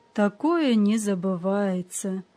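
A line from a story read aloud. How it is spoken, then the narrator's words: Sighing. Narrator (Russian): вздохнул господин Видмар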